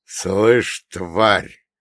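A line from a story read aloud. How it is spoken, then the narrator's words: Hoarse exhaled threat. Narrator (Russian): хрипло выдохнул Лазарь Сильверстович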